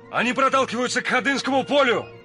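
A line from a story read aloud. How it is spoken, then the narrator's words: Shout. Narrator (Russian): крикнул мне Эраст Петрович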